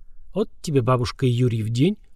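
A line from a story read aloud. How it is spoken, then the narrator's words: Muttering under breath. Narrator (Russian): пробормотал себе под нос Гуран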